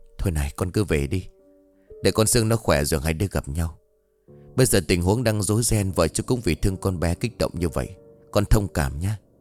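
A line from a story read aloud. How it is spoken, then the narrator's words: Whispering. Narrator (Vietnamese): không muốn bị người khác chú ý, ông Trung thì thầm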